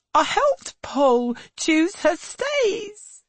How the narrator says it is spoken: she now sobs

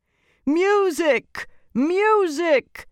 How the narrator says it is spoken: screamed the emperor

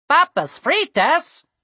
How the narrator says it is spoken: cried one of the gnomes

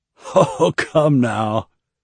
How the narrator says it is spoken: the overweight Ahane laughed merrily

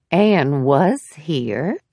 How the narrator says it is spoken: she said slowly

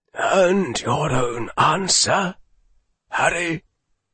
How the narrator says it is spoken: Dumbledore said quietly

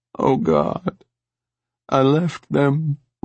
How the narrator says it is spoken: Rachel sobbed

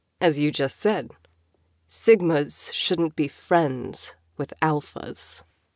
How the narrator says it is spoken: coolly

